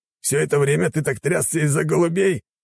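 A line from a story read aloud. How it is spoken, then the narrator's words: Disgusted sneer. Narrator (Russian): скривился он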